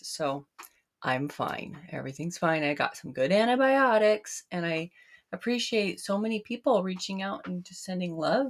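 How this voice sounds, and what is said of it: Voice affected by chest illness. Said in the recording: “you may hear in my voice, I'm just getting off bronchitis”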